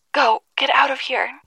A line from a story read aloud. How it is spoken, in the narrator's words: he screamed towards us as those horrendous parasites slashed away at the door